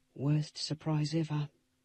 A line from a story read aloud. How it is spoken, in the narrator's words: Ellie whispered to me